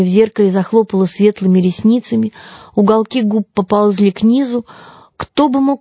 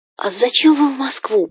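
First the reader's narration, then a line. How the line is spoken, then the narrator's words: Whisper. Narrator (Russian): прошептал Петя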